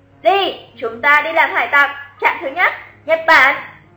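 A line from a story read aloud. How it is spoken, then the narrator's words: Elated loud speech. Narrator (Vietnamese): Lục Tiểu Thanh lập tức mặt mày hớn hở, thần thái như bay, lớn tiếng nói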